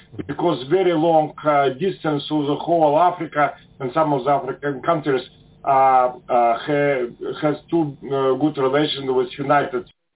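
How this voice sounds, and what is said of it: Strong foreign accent. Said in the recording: “heard that hard accent.”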